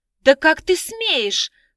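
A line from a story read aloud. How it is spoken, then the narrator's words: Indignant girl exclaiming. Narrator (Russian): возмущенно воскликнула девушка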